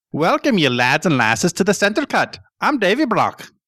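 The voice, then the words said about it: Put-on Scottish-Irish accent. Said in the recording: “Your Scottish accent is way better than mine. ... Mine is cross between Scottish and Irish.”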